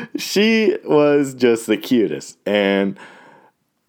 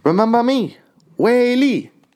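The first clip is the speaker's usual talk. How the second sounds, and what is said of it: Imitated light Chinese accent. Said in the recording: “her little accent, her little Chinese accent”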